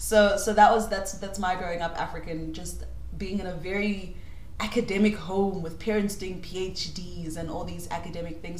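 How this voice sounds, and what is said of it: British-educated English accent. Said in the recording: “in a British school learning English and fancy ways of talking, which is why my accent sounds like this”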